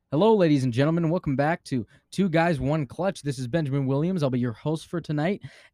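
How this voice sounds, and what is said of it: Confident radio announcer voice. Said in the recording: “have like an announcer voice, speak clearly, and then basically talk like you've never lost an argument in your entire life”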